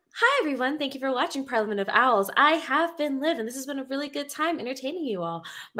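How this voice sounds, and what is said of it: Customer service voice. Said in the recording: “customer service voice ... You want customer service voice?”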